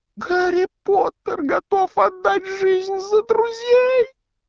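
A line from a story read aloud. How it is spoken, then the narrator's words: Self-abasing exclamation, house-elf. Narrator (Russian): воскликнул домовик, сознавая собственное ничтожество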